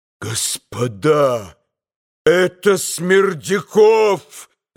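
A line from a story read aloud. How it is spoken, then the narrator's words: Sudden full-force shout. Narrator (Russian): закричал он вдруг изо всей силы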